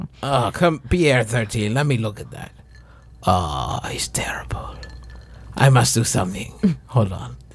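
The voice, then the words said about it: Put-on character accent. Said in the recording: “Where is this accent?”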